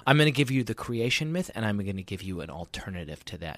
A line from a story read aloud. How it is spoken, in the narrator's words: she says